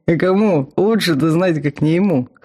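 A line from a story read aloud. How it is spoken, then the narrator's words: Chuckling. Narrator (Russian): хохотнул Вал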